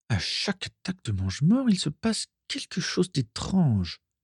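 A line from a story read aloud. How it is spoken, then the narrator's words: Murmured to herself. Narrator (French): murmura Carla pour elle-même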